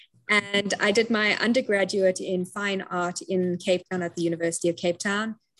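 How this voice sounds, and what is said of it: South African accent. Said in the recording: “I'm originally from Cape Town, South Africa, hence the accent you're hearing.”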